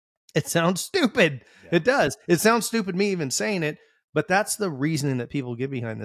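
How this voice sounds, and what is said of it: Usual voice. Nothing is said of it.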